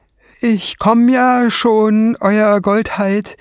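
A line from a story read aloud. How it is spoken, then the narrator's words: Stone dwarf calling. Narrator (German): rief der Steinzwerg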